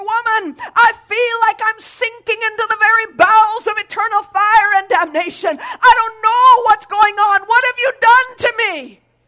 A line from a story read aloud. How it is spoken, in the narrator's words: he cried out all the more